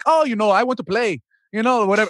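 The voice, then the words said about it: Bad Canadian accent, sounds Irish. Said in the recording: “my worst Canadian accent ever. It sounds sort of Irish.”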